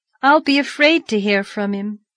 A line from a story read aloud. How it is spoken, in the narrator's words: sighed